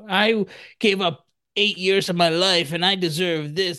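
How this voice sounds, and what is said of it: Complaining dentist character voice. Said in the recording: “my impression of a dentist complaining like always”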